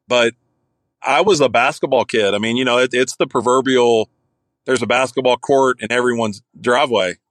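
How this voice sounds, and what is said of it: Thick Kentucky Southern accent. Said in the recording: “I grew up in Kentucky, if you can't tell by this thick redneck accent that I have”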